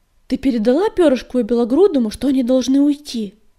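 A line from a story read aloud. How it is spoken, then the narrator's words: Sharp question. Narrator (Russian): резко спросил Огнегрив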